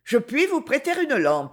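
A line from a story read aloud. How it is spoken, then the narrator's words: Exclaiming. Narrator (French): s'écria-t-elle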